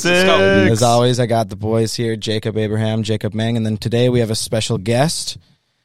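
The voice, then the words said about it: Hoarse, nearly lost voice. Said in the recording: “my voice is basically dead”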